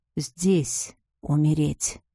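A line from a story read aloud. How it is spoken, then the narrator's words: Relishing whisper in ear, man. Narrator (Russian): прошептал мне на ухо мужчина, наслаждаясь реакцией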